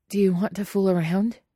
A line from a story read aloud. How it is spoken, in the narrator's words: Guillermo asks breathlessly